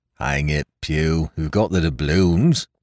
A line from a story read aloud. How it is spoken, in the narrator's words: grumbled one